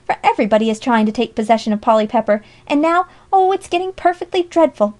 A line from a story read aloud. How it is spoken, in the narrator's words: she cried